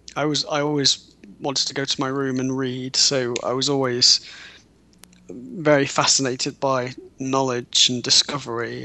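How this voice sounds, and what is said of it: Well-spoken British accent. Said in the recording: “very well-spoken. I know it's the British accent”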